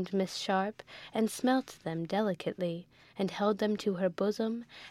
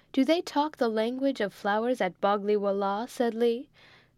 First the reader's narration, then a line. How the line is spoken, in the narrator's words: said Osborne, laughing